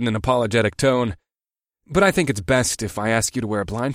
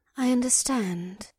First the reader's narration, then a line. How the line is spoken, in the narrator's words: Bulra replied in her misty voice